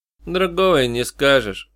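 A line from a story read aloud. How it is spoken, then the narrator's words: Gloomy remark. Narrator (Russian): мрачно заметил Шун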